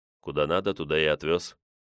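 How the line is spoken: Calm reply. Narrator (Russian): спокойным тоном ответил

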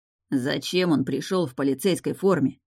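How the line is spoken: Hissed. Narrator (Russian): прошипел Раф, обращаясь к Деяну

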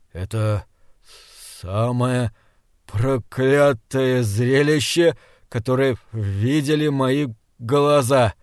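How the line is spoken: Stammering. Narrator (Russian): запинаясь, сказал Гримрик

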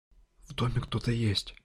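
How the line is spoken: Whispered into ear. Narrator (Russian): прошептала она мне на ухо

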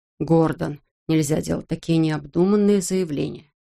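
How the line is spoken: Calm. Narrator (Russian): спокойно произнес он

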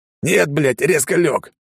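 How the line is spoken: Snapped back. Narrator (Russian): огрызнулся ниндзя

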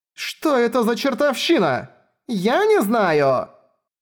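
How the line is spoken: Shrieking. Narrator (Russian): визжащими

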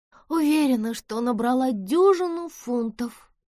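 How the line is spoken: Groan. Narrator (Russian): простонала Бесс

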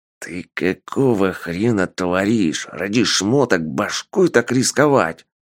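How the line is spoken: Hiss. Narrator (Russian): Зашипел на него Полос

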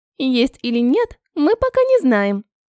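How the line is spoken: Giggle. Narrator (Russian): хихикнула ванильная пироженка

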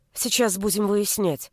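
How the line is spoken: Muttered. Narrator (Russian): пробормотала я

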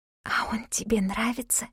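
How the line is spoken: Whisper. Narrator (Russian): я перешла на шепот

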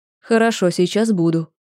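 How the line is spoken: Forced calm. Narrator (Russian): произнесла как можно более спокойно

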